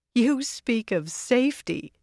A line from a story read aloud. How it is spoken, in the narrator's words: Savannah laughed